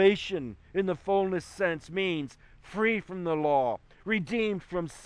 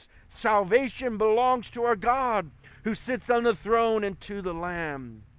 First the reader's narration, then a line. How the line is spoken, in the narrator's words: one shouting in a loud voice